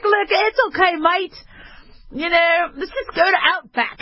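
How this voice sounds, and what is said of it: Put-on Australian accent. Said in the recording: “Very hard to do an Australian versus English accent.”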